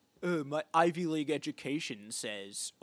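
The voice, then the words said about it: Imitates another person's voice. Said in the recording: “that's your Dane DeHaan impression.”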